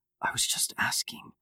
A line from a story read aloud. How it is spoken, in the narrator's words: Sarah whispered, trying not to cause a scene